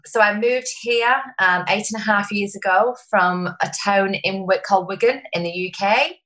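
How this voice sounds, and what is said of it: Strong English accent. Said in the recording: “my accent is still very strong... It's gorgeous. I love your accent.”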